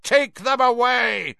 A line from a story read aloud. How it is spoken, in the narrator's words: Crouch roared at the Dementors, spit flying from his mouth